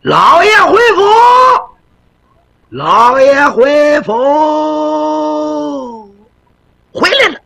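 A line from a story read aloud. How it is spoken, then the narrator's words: Shouting from outside. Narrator (Chinese): 就听外头喊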